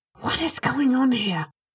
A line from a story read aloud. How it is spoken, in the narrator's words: He asked again, hissing the words more than speaking them out loud